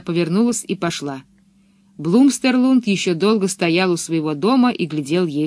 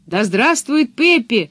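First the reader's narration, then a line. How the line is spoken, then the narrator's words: Children shouting together. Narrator (Russian): закричали ребята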